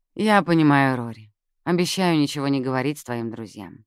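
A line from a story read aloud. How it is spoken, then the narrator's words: Gentle reassurance. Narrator (Russian): мягко заверила Джаз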